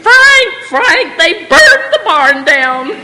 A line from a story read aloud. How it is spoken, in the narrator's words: Mama screaming